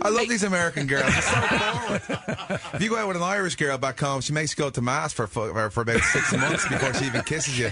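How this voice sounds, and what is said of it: Irish brogue. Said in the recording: “Irish brogue is so hot”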